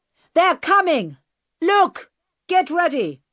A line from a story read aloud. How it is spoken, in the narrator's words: suddenly the bearded man shouted